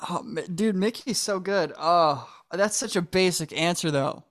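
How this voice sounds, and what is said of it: Usual voice. Nothing is said of it.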